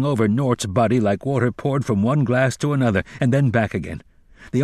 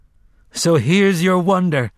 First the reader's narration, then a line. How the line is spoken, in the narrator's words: the man in black called after her, panting